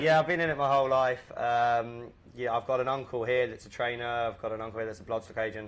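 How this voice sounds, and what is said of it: English accent. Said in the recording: “where the accent is from, and it's from a racing location. ... it's from Newmarket in England. ... it's from across the pond.”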